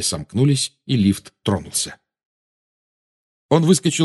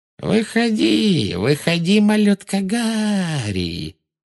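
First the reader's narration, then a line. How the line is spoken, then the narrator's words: Thin mocking singsong. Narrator (Russian): пропела она тонким издевательским голоском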